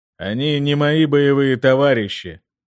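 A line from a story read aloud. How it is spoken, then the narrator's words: Dismissive snort. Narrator (Russian): хмыкнул Сигурд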